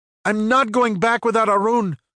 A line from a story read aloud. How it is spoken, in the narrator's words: Ricky yelled